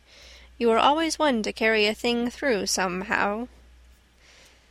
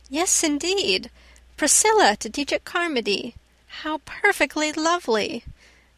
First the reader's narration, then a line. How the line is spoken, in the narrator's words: exclaimed Anne, her gray eyes lighting up